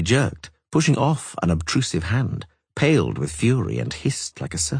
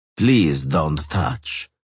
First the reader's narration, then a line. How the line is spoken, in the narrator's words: Bonnart said coldly